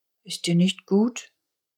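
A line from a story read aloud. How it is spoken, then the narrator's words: Very softly. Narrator (German): sagte Zuppi ganz leise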